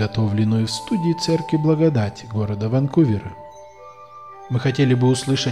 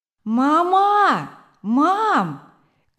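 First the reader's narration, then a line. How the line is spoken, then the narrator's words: Child shouting. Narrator (Russian): крикнул маленький Вилли Крамер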